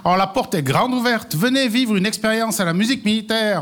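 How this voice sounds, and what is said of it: Swiss Valais regional French accent. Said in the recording (French): “l'accent de ton invité. Qu'est-ce qu'il a comme accent? ... Il a son accent. ... Valaisan.”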